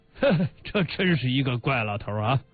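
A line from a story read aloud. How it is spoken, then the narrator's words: Hearty laughing speech. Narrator (Chinese): 贾维民朗朗的笑起来，边笑边说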